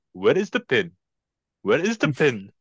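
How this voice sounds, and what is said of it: Put-on accent like Apu from Simpsons. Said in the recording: “This only works if I do the accent. ... you're doing a rendition of Apu in Simpsons”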